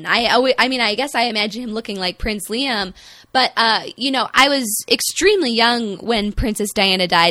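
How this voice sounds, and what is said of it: Midwestern American accent. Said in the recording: “my horrifying Midwestern accent, I am an American”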